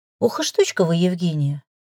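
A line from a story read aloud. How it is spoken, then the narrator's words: Regretful sigh. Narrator (Russian): с нескрываемым сожалением вздохнул Максим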